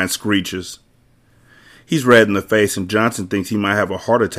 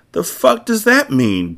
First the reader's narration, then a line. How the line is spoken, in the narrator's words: Brian whines